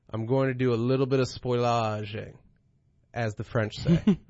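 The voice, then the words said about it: Put-on mock Italian or French accent. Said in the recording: “That might have been an Italian accent. I don't know.”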